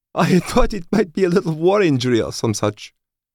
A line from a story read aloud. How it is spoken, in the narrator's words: said with a cackle